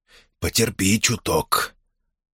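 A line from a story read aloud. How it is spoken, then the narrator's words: Barely audible whisper. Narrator (Russian): тихонько погладил женщину по голове и едва слышно шепнул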